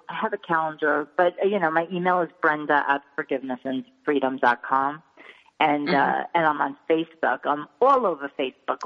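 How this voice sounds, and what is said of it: New York accent. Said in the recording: “It's my New York accent.”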